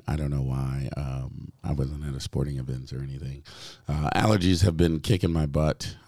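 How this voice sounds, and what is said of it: Hoarse, partly lost voice. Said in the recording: “my voice is a little bit gone ... this weird voice”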